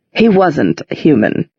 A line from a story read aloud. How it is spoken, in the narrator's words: said Valentine in his silky voice